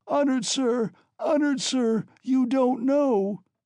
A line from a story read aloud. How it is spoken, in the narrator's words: screamed Katerina Ivanovna